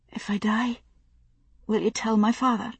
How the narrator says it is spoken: Lizzie had whispered to her in the rushing dark

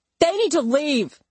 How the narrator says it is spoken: someone shouted

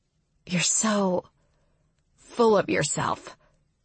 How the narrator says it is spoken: Calla mutters

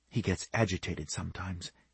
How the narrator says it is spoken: she whispered

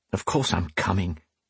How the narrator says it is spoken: he muttered

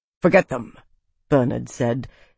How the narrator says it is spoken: his voice crisp and cold

